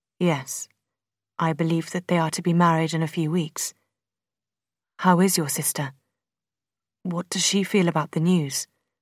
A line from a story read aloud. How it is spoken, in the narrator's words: the Colonel asked